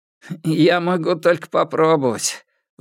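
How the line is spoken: Bitter sigh. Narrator (Russian): вздохнул Чу Тяньин с горькой улыбкой

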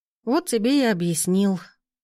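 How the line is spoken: Grumbling to herself. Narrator (Russian): проворчала я сама себе

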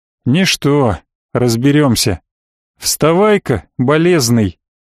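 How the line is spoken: Sighing. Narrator (Russian): Вздохнув, околоточный

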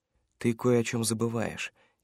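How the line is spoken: Quiet. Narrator (Russian): тихо произнес научник

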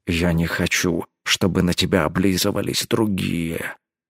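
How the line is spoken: Quiet. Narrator (Russian): тихо произнес

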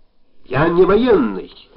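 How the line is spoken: Exclaimed. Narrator (Russian): воскликнул Жавтяк

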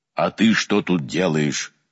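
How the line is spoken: Menacing question. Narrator (Russian): грозно спросил владыка Гавриил

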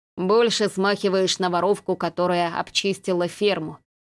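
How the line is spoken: Snorted. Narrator (Russian): хмыкнул Дес

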